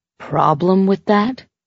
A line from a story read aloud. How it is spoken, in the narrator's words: She said coolly